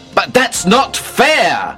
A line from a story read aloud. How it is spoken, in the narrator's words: I shouted